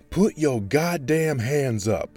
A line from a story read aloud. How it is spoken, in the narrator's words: barked